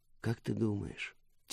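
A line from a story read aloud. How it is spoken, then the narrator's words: Quiet question. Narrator (Russian): тихо спросила Мира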